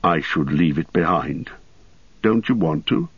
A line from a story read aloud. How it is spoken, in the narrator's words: he said quietly